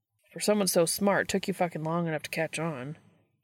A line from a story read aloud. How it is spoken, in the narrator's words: grumbles